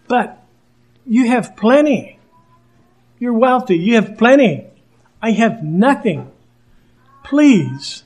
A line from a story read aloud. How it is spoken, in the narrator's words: this host here pleading there